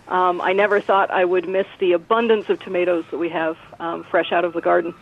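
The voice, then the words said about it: American accent. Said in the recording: “the only American accent in the room”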